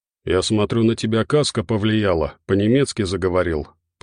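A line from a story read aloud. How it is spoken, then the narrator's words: Grumble. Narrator (Russian): проворчал Димедрол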